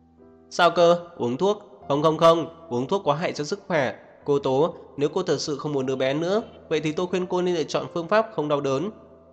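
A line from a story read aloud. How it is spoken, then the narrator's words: Panicked, raised, exaggerated English. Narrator (Vietnamese): Bác sĩ chợt hoảng hốt, cao giọng nói thứ tiếng Anh khoa trương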